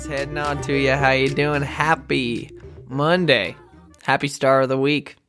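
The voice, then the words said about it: Exaggerated put-on accent. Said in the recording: “this ridiculous accent, because it's not really my actual accent.”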